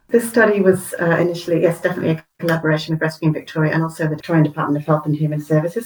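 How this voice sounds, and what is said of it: British accent. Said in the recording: “you have a wonderful accent... Originally from the UK... that's maybe why I've still got the accent.”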